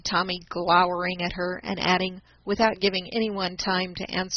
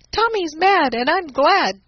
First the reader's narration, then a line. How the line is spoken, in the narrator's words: cried Ned